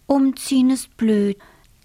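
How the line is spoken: Sighing. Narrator (German): Millie seufzt

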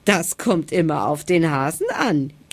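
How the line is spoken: Giggling. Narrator (German): kicherte der Igel

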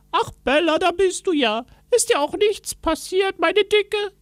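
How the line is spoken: Man calling. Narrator (German): rief er

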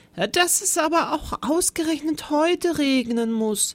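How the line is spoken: Sighed. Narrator (German): seufzte er

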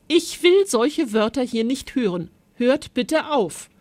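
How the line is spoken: Interrupting call. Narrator (German): rief Maritia dazwischen

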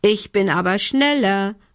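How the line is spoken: Called out. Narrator (German): rief Lumbi

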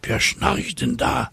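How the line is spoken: Whisper. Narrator (German): flüstert eine Cäcilie

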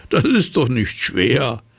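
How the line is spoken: Laughing. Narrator (German): Der Zauberer lachte

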